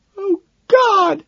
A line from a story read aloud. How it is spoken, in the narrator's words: she wails